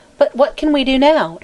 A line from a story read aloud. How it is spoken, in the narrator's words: inquired Mary Louise anxiously